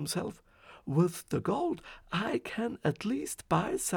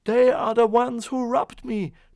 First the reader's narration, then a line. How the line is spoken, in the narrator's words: the man shouted